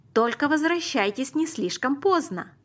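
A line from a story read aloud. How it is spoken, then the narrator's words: Mother calling after. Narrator (Russian): крикнула мама нам вслед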